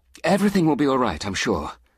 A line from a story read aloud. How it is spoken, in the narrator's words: she said hastily